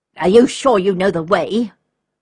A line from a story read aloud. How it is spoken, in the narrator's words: one asked impatiently